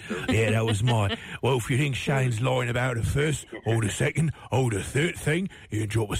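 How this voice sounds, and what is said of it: Exaggerated put-on Cockney accent. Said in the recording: “terrible Cockney accent ... Is your Cockney accent?”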